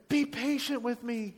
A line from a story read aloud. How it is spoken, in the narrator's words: he begged